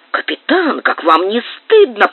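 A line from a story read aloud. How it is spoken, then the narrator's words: Whisper. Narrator (Russian): прошептал Снель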